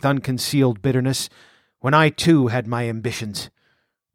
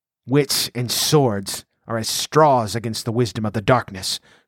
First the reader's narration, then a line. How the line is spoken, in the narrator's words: growled the Stygian